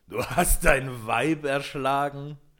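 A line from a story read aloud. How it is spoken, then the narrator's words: Terrible laughing question. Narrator (German): fragte er ihn mit schrecklichem Lachen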